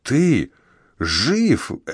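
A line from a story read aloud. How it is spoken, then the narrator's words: Breathed-out word. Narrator (Russian): Эбрукс буквально выдохнул это слово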